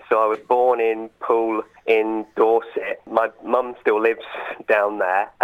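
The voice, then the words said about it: Southern English accent. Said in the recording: “As you can tell from my accent, I come from the south of England originally.”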